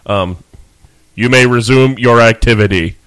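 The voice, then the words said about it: Robotic RoboCop voice impression. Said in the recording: “That's almost Schwarzenegger like... it's robotic”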